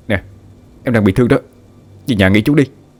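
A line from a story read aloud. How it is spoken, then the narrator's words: Loud shout. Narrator (Vietnamese): Anh hét lớn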